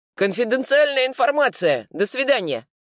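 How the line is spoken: Distant shout, policeman. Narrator (Russian): крикнул второй полицейский уже с нижней площадки

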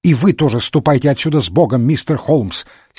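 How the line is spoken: Angry little priest. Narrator (Russian): сердито проговорил маленький священник

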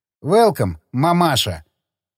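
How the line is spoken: Heavy foreign accent. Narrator (Russian): Второй пилот произнес с сильным акцентом

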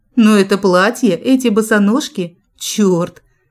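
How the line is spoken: Hoarse voice. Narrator (Russian): хрипотца в голосе появилась

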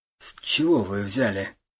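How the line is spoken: Driver forcing words out. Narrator (Russian): наконец выдавил водитель

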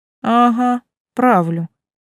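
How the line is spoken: Lazy confirmation. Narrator (Russian): лениво подтвердила я

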